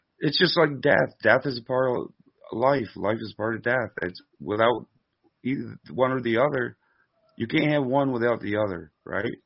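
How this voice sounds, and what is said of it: Hoarse, fading voice. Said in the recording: “I think I'm losing my voice”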